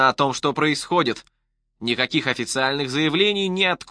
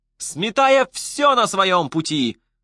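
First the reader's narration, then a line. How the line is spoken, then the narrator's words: Blaring radio. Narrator (Russian): вопило радио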